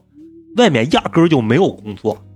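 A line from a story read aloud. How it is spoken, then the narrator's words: Furious. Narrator (Chinese): 老尼克这个时候暴怒 说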